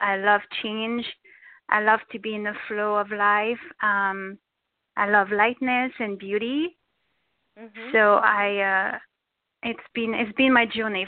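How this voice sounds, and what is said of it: French accent. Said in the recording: “you have a beautiful French accent”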